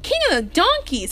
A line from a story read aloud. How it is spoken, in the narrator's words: exclaimed Tony